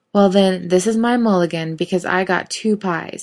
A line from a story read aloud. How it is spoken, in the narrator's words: he said triumphantly